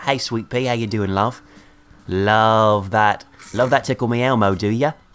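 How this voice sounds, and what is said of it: Put-on British accent. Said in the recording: “I've been doing a British accent the whole time”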